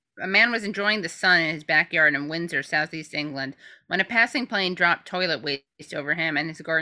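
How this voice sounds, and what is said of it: Usual voice. Nothing is said of it.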